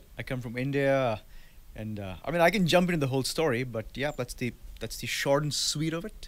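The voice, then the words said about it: Indian accent. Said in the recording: “my funny Italian accent, ... But it's as Indian as it gets.”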